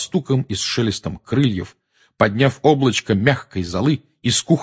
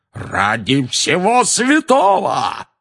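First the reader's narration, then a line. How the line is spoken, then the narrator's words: Roar. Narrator (Russian): взревел дядя Вернон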